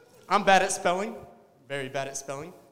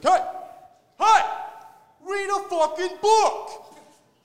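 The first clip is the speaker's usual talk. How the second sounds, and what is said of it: Mobster accent. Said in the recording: “we're doing accents now. ... a Siri that's like a mobster”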